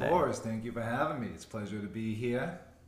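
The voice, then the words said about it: Thick, exaggerated Boston accent. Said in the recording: “putting some extra Boston stank on that intro ... my accent get watered down ... it's gone thicker ... All my E's and R's just disappear ... your Boston accent”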